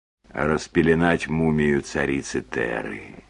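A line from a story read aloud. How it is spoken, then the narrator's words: Quiet understanding reply. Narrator (Russian): Мистер Трелони, видимо, понимая ее состояние, тихо ответил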